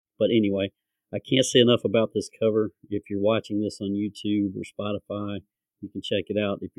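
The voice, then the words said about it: Southern twang accent. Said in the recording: “this southern twang”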